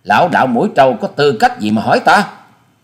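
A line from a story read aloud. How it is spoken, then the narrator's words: Angry female. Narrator (Vietnamese): Hà Xà tiên tử giận dữ nói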